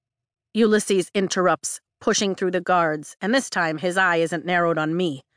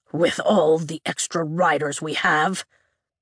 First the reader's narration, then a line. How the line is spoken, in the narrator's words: Ulysses mutters